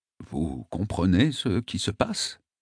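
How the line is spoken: Sincerely worried. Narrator (French): me demande-t-il d'un ton sincèrement préoccupé

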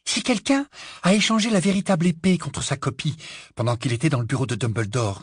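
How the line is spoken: Breathless. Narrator (French): dit-elle d'une voix essoufflée

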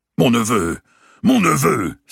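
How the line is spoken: Cried out. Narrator (French): s'écria Valois

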